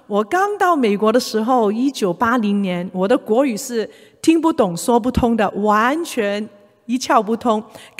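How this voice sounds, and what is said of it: Mandarin with Cantonese accent. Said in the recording (Chinese): “你听得出我是有广东口音的，我是香港出生长大”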